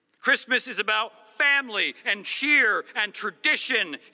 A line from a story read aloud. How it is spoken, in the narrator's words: he yelled over the brass quintet